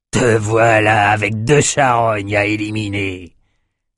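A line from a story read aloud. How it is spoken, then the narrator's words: Sneering laugh. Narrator (French): ricana-t-il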